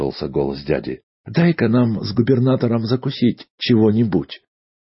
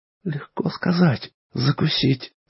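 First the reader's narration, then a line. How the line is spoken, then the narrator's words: Terrified whisper, mother. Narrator (Russian): прошептала матушка, млея от ужаса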